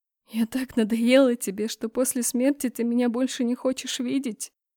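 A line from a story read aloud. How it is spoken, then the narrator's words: Wry laugh through tears. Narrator (Russian): усмехнулась я сквозь слезы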